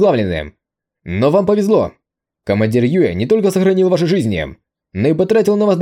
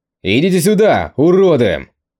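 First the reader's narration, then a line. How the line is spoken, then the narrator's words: Shouted. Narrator (Russian): крикнул Конг Тянь Юй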